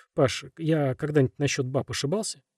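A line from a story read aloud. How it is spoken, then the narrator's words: Plain. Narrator (Russian): спросил Корсаков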